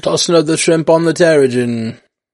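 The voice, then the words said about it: Poor put-on Australian accent. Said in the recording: “That wasn't a very good Australian accent.”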